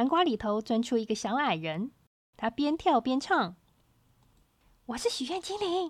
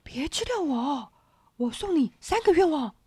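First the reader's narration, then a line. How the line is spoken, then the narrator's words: Anxious, urgent. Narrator (Chinese): 那声音急了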